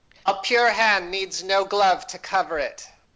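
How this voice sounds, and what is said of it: Imitates another person's voice. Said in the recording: “it was a good impression. It was a James Mason impression”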